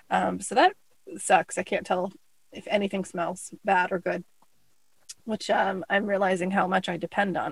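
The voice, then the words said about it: Sick voice, frequent throat clearing. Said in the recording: “you'll hear in my voice, I'm clearing my throat and all that fun stuff”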